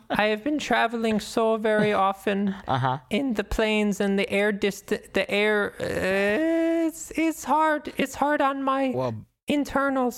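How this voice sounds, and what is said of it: Ridiculous character voice, shifting pitch. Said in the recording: “your voice is going from soprano to baritone? ... speaking in that ridiculous voice”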